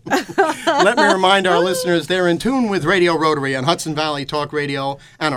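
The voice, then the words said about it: Cultured Midwest radio announcer voice. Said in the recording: “I have that cultured Midwest radio announcer voice.”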